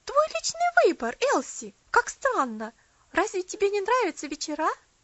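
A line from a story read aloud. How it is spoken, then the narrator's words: Exclaiming. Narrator (Russian): Мэри Лесли воскликнула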